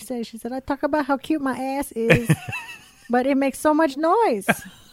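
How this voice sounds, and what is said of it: Thai accent. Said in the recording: “It's really the Thai accent that makes the joke work.”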